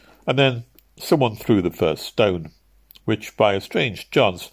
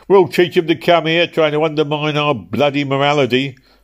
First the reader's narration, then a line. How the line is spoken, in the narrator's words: howled Dick Wantley